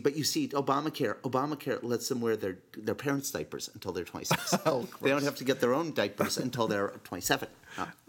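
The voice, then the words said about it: Nancy Pelosi impression. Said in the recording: “I'm going to do my Nancy Pelosi ... That's a good impression. Very good impression.”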